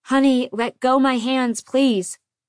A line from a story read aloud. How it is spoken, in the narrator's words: I didn't yell, but he had a hurricane in his head, and I had to slice my voice through it and say